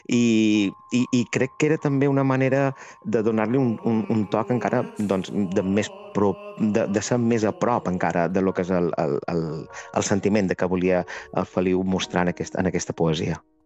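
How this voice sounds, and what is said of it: Strong Mallorcan Catalan accent. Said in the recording (Catalan): “jo som mallorquí, tinc l'accent, a més, molt de Mallorca ... I hi ha vegades que se m'escapa, no? Com ara mateix estic parlant.”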